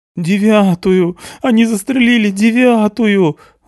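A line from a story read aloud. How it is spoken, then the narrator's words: Sobbing. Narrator (Russian): рыдает Интик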